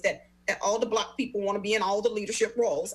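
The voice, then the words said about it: Imitates another person's voice. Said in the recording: “put on my Oprah voice”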